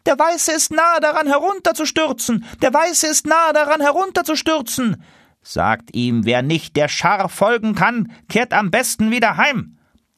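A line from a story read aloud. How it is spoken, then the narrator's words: Lead goose calling. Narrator (German): rief die Führergans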